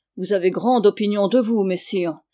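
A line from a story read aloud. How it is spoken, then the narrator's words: King grumbling. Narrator (French): grommela le roi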